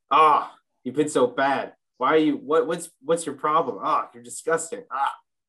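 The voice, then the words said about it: Angry character voice. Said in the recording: “the angry sort of tongue”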